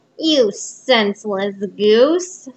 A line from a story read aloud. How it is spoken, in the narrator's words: snarled the dwarf